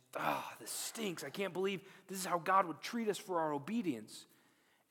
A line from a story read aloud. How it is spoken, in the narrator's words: grumbling and saying